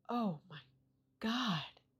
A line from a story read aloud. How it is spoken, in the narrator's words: a neighbor whisper